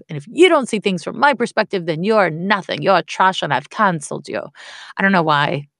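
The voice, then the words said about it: Put-on royal, Game of Thrones-style accent. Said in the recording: “I did it with an accent ... I was like being Game of Thronesy ... I got royal”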